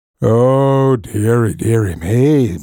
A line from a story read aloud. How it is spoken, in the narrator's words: moaned the dragon